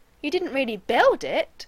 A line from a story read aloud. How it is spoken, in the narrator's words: Shepherd said disbelievingly, his voice rising